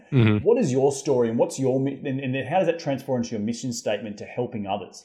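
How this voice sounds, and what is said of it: Unusual foreign accent. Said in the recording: “I've got this weird accent.”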